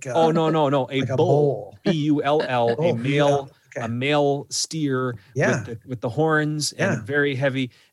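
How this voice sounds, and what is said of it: Iron Range Minnesota accent. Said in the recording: “your Iron Range accent”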